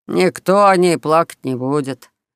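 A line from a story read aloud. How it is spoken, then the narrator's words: Disdainful snort. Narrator (Russian): брезгливо фыркнул мужичок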